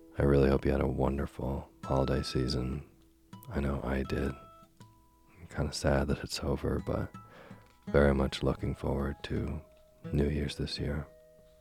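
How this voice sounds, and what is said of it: Strained, fading voice. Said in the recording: “I don't know if you can hear it, but I'm losing my voice once again for the second time this month ... my voice just, it can't make it through a long reading”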